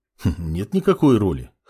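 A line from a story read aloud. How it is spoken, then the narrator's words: Dismissive snort. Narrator (Russian): хмыкнул маг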